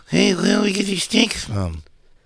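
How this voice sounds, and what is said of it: Imitates another person's voice. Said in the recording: “my Chris impression? My Chris impression?”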